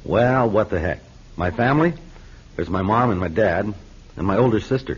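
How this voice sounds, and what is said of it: American accent. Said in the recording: “I was just interested in hearing you speak English with your American accent.”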